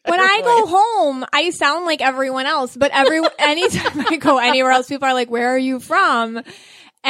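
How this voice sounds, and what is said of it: Buffalo, New York accent. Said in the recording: “I'm from Buffalo, New York, which explains my accent.”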